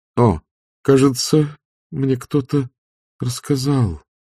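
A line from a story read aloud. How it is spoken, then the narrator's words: Muttering. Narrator (Russian): пробормотала она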